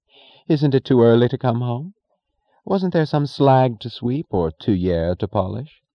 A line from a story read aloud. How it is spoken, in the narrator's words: she said in a bright tone of amusement